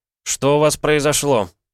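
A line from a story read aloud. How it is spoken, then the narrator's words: Barked. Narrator (Russian): рявкнул я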